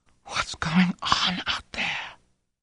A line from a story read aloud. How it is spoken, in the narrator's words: whispered